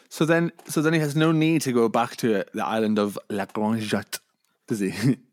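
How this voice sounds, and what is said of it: Put-on French accent. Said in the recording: “That's my best French accent.”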